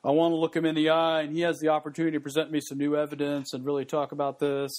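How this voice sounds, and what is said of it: Poor blue-blood imitation of another person. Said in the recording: “terrible Roger Goodell imitation, but you get the kind of the blue blood, I think, feel for it”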